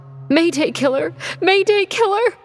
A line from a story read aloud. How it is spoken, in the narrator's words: The girl sobbing